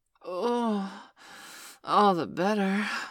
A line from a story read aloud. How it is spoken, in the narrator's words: I gasped as my building orgasm shifted into overdrive